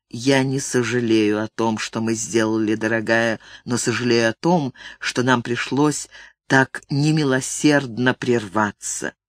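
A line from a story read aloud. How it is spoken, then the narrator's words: Whisper into her hair. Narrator (Russian): Он прошептал в ее спутавшиеся под его рукой волосы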